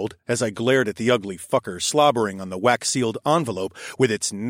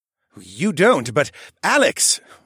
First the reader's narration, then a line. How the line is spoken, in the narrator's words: Horace snorted